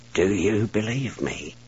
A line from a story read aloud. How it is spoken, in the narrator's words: he asked quietly